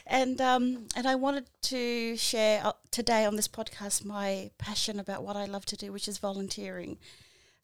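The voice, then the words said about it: Liverpool accent. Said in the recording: “I don't have the Kiwi accent. ... I speak Liverpool.”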